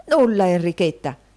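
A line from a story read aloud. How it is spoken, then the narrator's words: Collector exclaiming. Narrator (Italian): esclamò il riscossore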